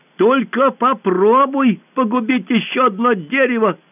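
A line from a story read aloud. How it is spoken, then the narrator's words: Shouted. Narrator (Russian): крикнула Алиса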